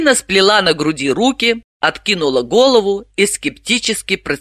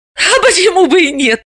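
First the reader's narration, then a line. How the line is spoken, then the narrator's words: Laughing. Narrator (Russian): рассмеялась Далила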